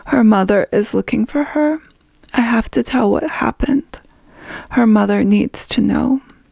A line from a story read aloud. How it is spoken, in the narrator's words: my voice cracked